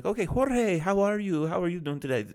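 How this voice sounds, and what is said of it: Put-on accent. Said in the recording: “I don't know why I just did that with an accent.”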